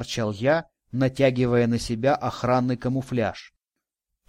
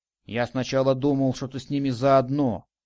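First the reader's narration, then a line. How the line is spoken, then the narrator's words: Grumbling. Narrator (Russian): пробурчал Радик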